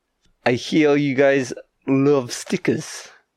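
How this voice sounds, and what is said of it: Exaggerated Russian accent. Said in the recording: “obscenely Russian man”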